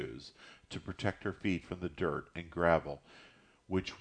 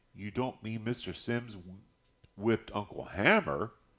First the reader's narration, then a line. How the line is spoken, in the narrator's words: stammered an unbelieving Christopher John